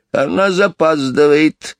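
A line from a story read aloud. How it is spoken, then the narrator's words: Angry. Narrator (Russian): сердито проговорила миссис Кори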